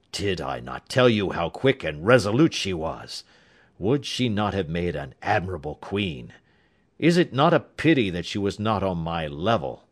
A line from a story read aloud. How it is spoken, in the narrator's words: said Holmes coldly